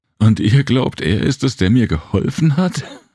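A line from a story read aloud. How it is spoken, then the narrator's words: Laughing. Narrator (German): Sie lachte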